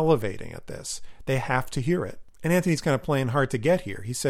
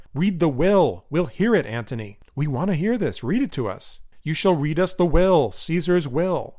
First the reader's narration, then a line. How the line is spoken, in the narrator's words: They yell out